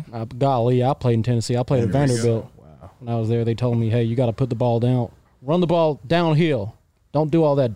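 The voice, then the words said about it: Put-on American Southern accent. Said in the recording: “Great American accent. ... I can do an American accent. ... Let me hear some Southern. ... Like Southern? Like from the deep South?”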